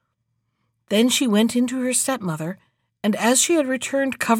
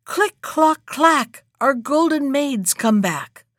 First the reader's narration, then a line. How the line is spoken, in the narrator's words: the old hen who sat on top of the wall called out